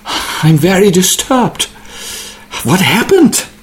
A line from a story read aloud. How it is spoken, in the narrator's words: And he pants